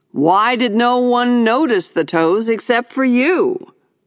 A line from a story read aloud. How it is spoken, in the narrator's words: my father said, arriving triumphantly